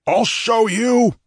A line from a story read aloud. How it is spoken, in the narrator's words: roared the maddened